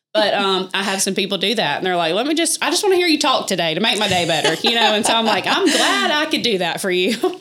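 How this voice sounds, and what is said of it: Strong Southern country accent. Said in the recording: “my accent, I know I'm very country ... country accent”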